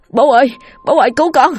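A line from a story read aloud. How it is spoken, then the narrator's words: Joyful shout. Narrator (Vietnamese): Tôi mừng rỡ la lên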